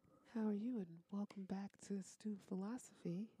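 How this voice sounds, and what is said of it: Low, soft radio-announcer voice. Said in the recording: “Why so low? ... I was using our NPR voices this week. ... ASMR voice?”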